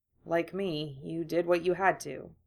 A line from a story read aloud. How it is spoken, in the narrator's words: Draco said softly